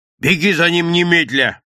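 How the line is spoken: Shouting. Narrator (Russian): крикнул Захаров

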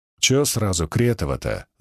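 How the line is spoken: Grumbling. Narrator (Russian): заворчал

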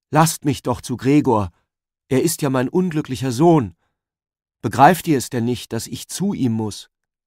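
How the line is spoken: Called out. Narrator (German): rief

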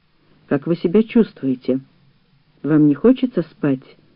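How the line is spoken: Quiet question. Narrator (Russian): тихо спросил Гаврилова хлороформатор

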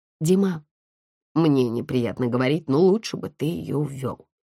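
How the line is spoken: Quiet. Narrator (Russian): негромко сказала Наташа

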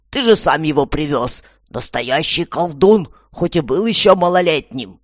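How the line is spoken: Exasperated outburst. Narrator (Russian): Тут Аня не выдержала, понимая, что дело начинает принимать уж очень скверный характер, и выкрикнула

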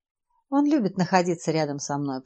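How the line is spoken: Affectionate, gentle. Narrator (Russian): проговорил профессор ласково

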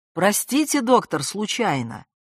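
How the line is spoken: Polite cheerful shout. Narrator (Russian): вежливо-весело крикнул мадьяр

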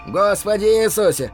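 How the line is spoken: Boy's shout. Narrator (Russian): прокричал парнишка в дверях

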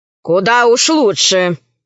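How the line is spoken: Grumbling. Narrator (Russian): пробурчала боевая подруга

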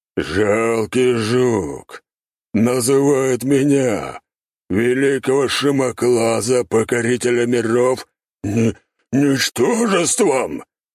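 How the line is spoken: Roaring. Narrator (Russian): взревел

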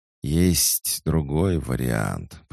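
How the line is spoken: Serpent's hiss. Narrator (Russian): прошипел змей

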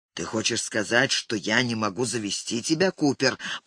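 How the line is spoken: Growling. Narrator (Russian): прорычала Вероника

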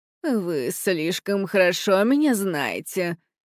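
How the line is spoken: Pouting grumble. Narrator (Russian): надув губы, буркнула правительница страны чудес

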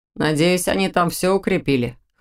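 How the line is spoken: Wry snort. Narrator (Russian): хмыкнул Доминик

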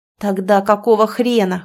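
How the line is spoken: Growled retort. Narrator (Russian): хочется мне рыкнуть в ответ

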